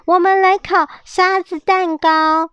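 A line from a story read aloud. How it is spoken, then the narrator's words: Two shouting in unison. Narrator (Chinese): 罗西塔和马雷克异口同声的大喊说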